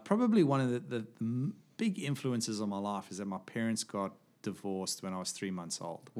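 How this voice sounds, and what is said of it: South African accent. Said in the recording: “I thought the accent would give it away ... born in South Africa”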